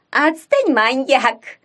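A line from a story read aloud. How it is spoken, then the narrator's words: Laughing reply. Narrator (Russian): с хохотом отвечала Пипа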